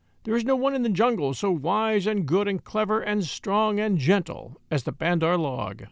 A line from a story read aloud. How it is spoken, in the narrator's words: they would all rush together in mobs and shout